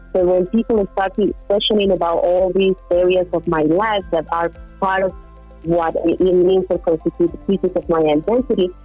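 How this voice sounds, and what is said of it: Colombian-accented English. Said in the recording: “a Colombian ... where my accent was coming from”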